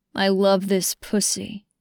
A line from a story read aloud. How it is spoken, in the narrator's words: he growled